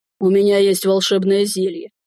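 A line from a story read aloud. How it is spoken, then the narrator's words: Smirking snort. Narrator (Russian): хмыкнул он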